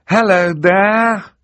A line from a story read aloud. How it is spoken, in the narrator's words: called out